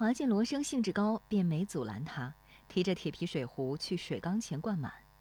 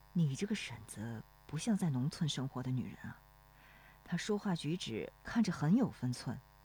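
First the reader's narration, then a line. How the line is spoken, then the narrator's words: Low question. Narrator (Chinese): 罗生转头低声问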